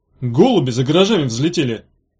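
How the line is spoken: Speculative snort. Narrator (Russian): Бетла хмыкнула и предположила

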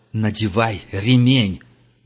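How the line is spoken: Roared. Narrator (Russian): взревел Герман

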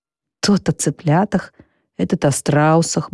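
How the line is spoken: Drowsy mutter. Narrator (Russian): бормочет Сфинкс, не открывая глаз

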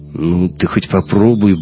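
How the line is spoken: Gruff mutter. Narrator (Russian): буркнул Шибанов

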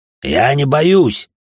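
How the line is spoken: Barking shout. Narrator (Russian): рявкнул Блаут

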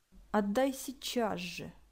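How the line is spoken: Quiet tense speech. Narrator (Russian): бледнее тихо сказала Василиса

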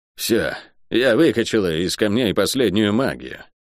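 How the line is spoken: Tired woman. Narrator (Russian): устало сказала проклятая

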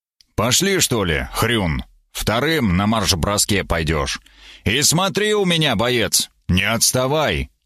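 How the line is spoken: Stern warning. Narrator (Russian): строго предупредил я

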